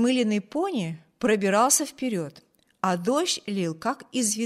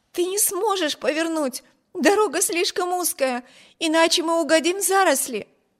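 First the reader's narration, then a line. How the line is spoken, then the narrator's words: Alarmed exclamation. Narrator (Russian): воскликнула Эми, уверенная, что при этой попытке карета непременно опрокинется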